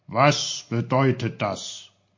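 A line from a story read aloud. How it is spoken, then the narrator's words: Asked in stern voice. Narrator (German): fragte Onkel Pfefferkorn mit seiner strengsten Stimme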